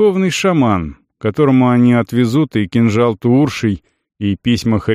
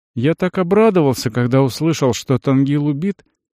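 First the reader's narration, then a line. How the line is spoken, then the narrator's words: Sighing, reminiscent. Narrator (Russian): вздохнул, вспомнив случайный разговор на улице, а затем его подтверждение в храме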